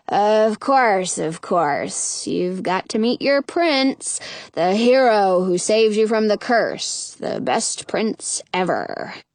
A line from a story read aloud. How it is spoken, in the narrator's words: grumbles